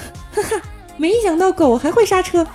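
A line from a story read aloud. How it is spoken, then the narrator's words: Loud laughing. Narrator (Chinese): 我就大笑道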